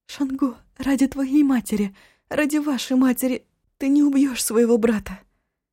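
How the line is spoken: Breathless plaintive whisper. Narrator (Russian): задыхаясь, жалобно прошептать

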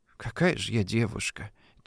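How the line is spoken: Quiet whisper. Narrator (Russian): Тихо, чтобы не расслышал извозчик, прошептала Дуся

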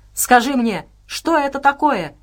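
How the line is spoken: Shouting. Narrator (Russian): прокричал Максим

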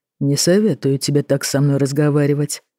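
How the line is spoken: Calm. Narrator (Russian): сказал он спокойно

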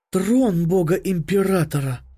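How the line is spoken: Awed breath. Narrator (Russian): Выдохнула она

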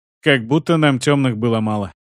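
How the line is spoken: Snorting grunt. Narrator (Russian): хмыкнул я

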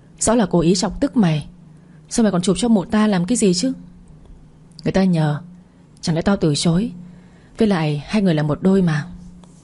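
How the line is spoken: Resentful grumbling. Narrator (Vietnamese): Kỳ Yến hậm hực bảo tôi

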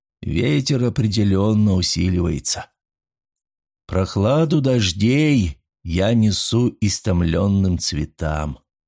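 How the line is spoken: Solemn recitation. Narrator (Russian): торжественно продекламировал второй механик

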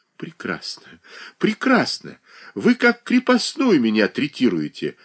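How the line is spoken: Sobbing. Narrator (Russian): рыдала Павла Абрамовна

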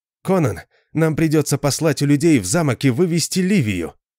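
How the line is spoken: Exclamation. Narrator (Russian): воскликнул Арфас

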